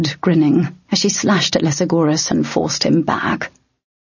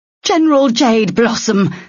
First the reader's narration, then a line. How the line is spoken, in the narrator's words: the Imperial woman shouted